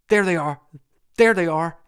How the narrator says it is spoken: he stammered out

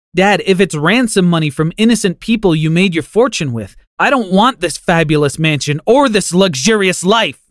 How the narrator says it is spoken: I screamed

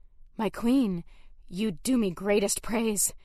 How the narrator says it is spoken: breathed, breaking the words

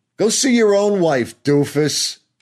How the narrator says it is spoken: she shouts after me

